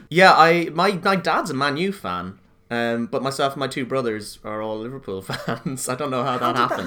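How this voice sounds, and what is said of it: Irish accent. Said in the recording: “by your accent ... I'm guessing, I could be wrong, Irish.”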